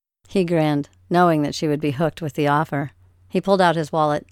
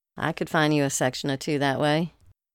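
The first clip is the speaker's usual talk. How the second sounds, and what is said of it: Drawling southern Louisiana accent. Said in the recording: “she drawled out in her southern Louisiana accent”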